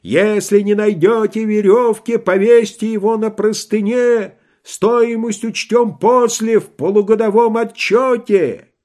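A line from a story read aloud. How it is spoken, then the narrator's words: Kept shouting. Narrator (Russian): он все кричал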